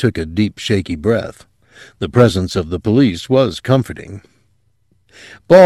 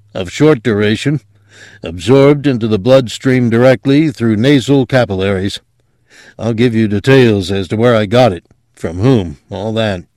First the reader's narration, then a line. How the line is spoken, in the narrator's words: said thickly